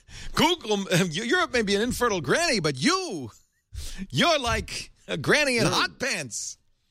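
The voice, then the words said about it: Jewish borscht-belt comedian accent. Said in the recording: “he had a Jewish accent ... you had a borscht belt comedian”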